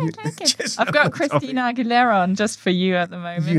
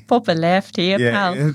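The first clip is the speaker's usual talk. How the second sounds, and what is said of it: Put-on Glaswegian Scottish accent. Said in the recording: “slightly more Scottish. ... That's Glaswegian”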